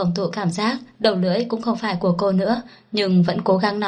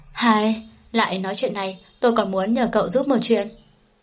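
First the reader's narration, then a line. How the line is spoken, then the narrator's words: Sighing. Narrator (Vietnamese): Đàm Tư Tư thở dài một cái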